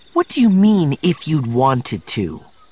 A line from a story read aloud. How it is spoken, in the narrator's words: Mara said scornfully